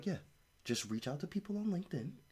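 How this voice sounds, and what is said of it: Gary Vee impression. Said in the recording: “a good Gary Vee impression? ... You could do better.”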